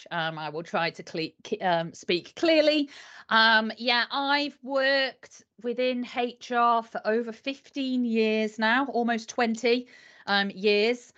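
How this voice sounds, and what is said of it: Yorkshire northern English accent. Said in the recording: “I live in the north of England in Yorkshire. So apologies if my accent is a bit strange.”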